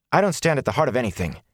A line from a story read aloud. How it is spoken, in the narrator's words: he said harshly